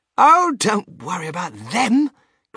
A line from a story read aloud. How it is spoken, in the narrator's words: cried Mr